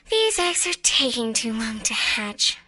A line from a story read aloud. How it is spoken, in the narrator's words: she sighed